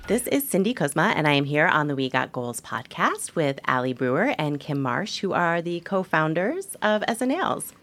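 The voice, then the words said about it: Melodious radio-style voice. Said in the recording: “Your radio voice is really good. Podcasting voice. ... It's very melodious.”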